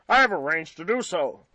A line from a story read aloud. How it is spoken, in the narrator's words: replied Jopp curtly